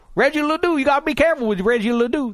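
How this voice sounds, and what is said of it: Imitated Cajun accent. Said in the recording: “That's my impression of a Cajun person.”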